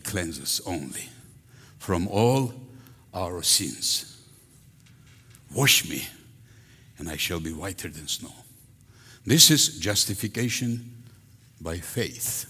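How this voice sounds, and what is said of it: Strong foreign accent. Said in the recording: “if my accent is too strong”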